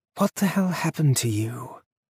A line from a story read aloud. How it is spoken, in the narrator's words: Neil sighed with genuine sadness